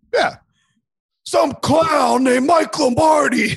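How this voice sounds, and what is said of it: Imitates another person's voice. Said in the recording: “That's my best Kelsey impersonation.”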